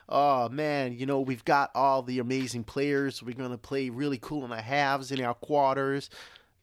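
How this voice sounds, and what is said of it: Put-on American accent. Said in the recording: “That's my American accent out.”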